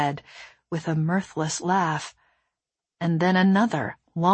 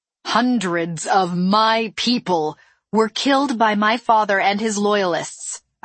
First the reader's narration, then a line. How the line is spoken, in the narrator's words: I said loudly